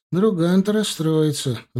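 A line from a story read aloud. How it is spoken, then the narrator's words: Sighing. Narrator (Russian): вздохнул он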